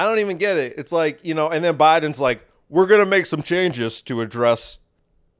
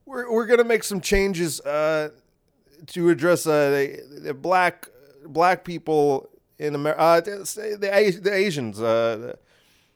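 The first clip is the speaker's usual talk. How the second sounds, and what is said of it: Joe Biden impression, halting speech. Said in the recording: “I can't do a Biden impression.”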